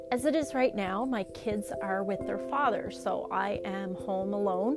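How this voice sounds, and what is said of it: Anxious-sounding voice. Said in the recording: “as you may be able to tell from my voice, I'm experiencing uh, a lot of anxiety right now”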